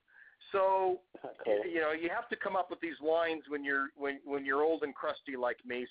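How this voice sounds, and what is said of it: American accent. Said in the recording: “As you can tell by my Yank accent”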